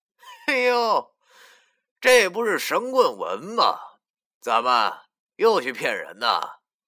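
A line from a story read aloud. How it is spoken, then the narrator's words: Insincere forced smile. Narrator (Chinese): 林叔皮笑肉不笑的说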